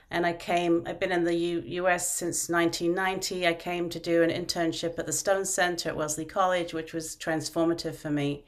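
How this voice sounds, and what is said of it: British (London) accent. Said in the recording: “I'm from the UK, you can probably tell from my accent, although people always think I'm from Australia or South Africa, but I'm originally from London”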